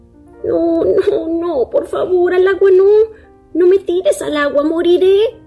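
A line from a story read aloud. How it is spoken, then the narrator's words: Moaning reply. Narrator (Spanish): replicó gimiendo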